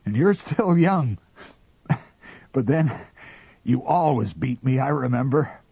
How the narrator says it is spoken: panted the captain

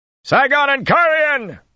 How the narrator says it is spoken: he shouted

